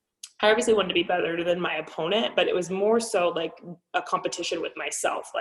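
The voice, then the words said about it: Strained, hoarse voice giving out. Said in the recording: “Excuse me, I'm like losing my voice.”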